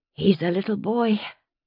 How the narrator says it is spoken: she said, her voice rough from screaming, but soft

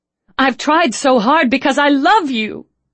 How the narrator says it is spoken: she said desperately

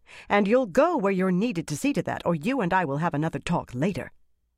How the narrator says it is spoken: Dialin said sharply

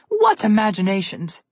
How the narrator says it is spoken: Froggy chuckled at the thought of this

